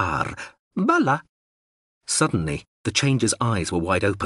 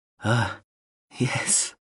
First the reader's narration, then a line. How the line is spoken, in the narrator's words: Horza whispered